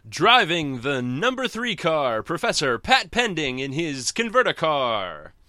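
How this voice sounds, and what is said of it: Cartoon race announcer voice. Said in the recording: “I can do my wacky racist voice.”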